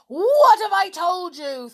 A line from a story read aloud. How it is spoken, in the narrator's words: thundered his uncle